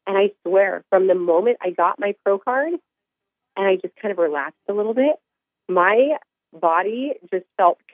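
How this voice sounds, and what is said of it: Voice strained by a chest cold. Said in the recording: “I'm fighting something in my chest ... I have a little bit of a cold”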